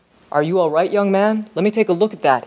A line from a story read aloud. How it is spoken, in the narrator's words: said